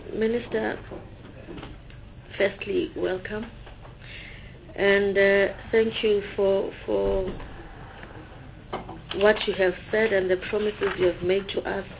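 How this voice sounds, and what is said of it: Unwell, flu-affected voice. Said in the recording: “my voice is not well. I've been having flu all weekend.”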